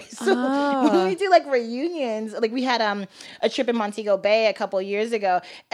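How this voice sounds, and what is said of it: Valley girl accent. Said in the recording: “you have like a very, if I may say it, Valley girl accent. ... It's so Valley.”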